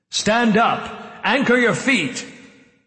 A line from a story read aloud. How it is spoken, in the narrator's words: The mayor shouted